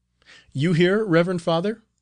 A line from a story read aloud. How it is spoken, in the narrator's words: cried the novice